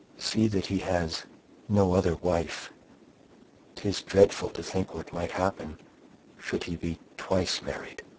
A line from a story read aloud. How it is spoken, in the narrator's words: she continued, dropping her voice to a whisper